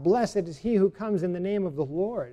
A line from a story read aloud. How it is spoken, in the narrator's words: They cried out